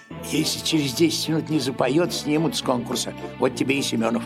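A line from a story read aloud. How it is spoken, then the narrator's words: Whisper from behind. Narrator (Russian): Кто-то сзади меня шепнул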